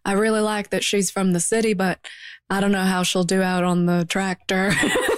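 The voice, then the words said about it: Put-on rural farmer accent. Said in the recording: “I don't know what accent that was. Like, I don't know where that farmer's from.”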